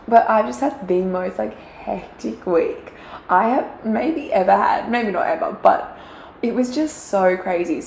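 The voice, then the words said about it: Croaky, slightly sick-sounding voice. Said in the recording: “my voice is a bit croaky. Can you hear it? ... It's a little bit croaky. ... I just kind of sound sick.”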